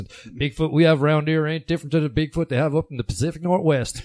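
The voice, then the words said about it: Put-on Devon accent. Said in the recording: “I'll do it in a Devon accent.”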